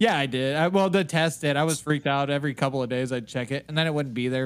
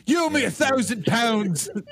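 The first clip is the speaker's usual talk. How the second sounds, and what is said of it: Put-on British accent. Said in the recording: “the British accent”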